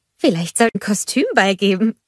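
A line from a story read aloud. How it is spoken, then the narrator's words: Giggling suggestion. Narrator (German): schlug Anna kichernd vor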